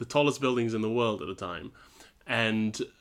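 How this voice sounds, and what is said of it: Usual voice. Nothing is said of it.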